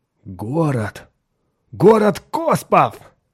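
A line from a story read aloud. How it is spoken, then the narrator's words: Exclaiming. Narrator (Russian): воскликнул Хоик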